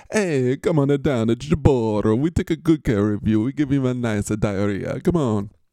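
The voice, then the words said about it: Put-on comedic accent. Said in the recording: “Is that offensive now to do that accent? ... every voice you can do now is offensive”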